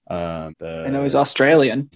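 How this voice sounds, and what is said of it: Poor attempt at Australian accent. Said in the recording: “That was my attempt at an Australian accent ... That was awful.”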